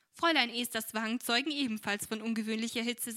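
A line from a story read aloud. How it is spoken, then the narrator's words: Laughing. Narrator (German): sagte Frau Brookley lachend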